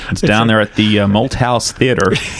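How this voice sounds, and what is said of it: Attempted Southern US accent. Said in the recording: “The whole segment is in Southern accents... Is that your best Southern accent?... That's not very good... That's pretty good.”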